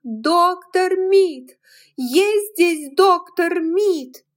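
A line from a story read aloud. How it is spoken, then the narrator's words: Screaming at full voice. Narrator (Russian): закричала, что было мочи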